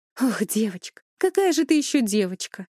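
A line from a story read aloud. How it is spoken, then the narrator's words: Heavy sigh. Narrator (Russian): Клавдия тяжело вздохнула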